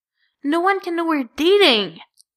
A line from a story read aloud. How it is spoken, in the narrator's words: Bitty hisses